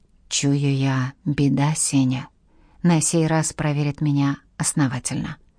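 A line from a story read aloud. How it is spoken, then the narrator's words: Whisper. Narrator (Russian): Демидов прошептал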